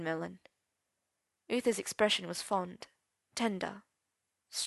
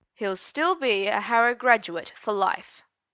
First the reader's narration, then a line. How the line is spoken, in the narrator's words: said Uther pompously